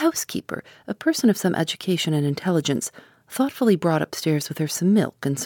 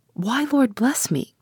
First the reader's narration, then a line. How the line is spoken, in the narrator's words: cried the housekeeper